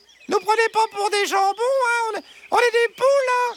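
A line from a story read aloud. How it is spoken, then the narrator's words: Exclaimed. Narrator (French): s'écria Josette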